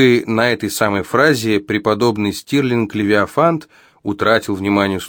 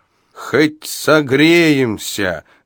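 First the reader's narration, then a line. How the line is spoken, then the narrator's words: Shouted reply, old man. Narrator (Russian): выкрикнул в ответ старик Абадия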